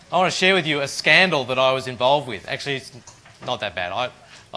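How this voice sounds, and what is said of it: Broad Western Sydney Australian accent. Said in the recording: “my rather bogan Western suburbs accent”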